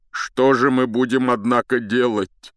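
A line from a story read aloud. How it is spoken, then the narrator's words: Tearful. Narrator (Russian): продолжал он сквозь слезы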